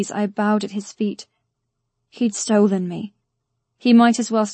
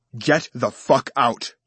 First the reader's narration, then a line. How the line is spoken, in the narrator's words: Elder bellowed